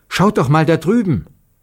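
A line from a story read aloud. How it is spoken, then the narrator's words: Suddenly called out. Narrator (German): Plötzlich rief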